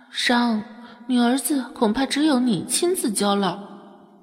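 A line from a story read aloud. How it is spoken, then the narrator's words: Low sigh. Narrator (Chinese): 上官墨低声叹息道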